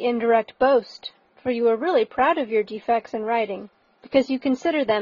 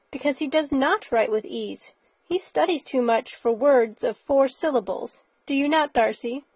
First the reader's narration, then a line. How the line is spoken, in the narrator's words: cried her brother